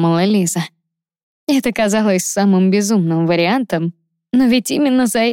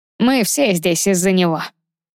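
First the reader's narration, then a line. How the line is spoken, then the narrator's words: Snorting voice. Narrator (Russian): хмыкнул голос слева от нее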